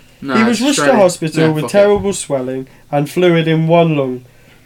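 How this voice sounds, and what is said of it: Usual voice. Nothing is said of it.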